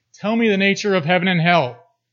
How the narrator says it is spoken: Impatient and discourteous, the samurai demanded in his husky voice, so accustomed to forcefully yelling

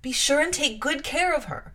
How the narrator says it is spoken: cried she to the guard

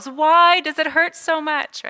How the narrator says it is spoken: Keeley, in her grief, she yells

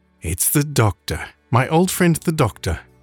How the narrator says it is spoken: exclaimed Clara and her father at the same moment

